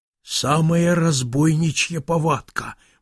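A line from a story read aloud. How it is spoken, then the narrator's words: Whisper. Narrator (Russian): прошептал Филофей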